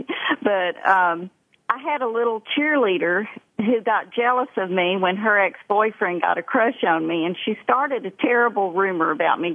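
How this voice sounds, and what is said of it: Thick Texas accent. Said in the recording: “I've got a really thick Texas accent ... I did notice that.”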